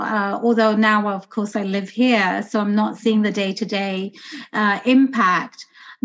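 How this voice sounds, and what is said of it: London British accent. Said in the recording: “my accent ... I was born and raised in London”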